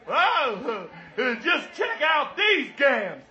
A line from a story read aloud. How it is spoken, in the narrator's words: He screamed